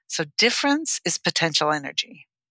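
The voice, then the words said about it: Imitating a science teacher's voice. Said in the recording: “my ninth grade science teacher voice.”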